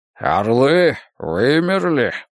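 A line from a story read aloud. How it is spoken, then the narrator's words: Grumbling. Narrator (Russian): проворчал Морпурго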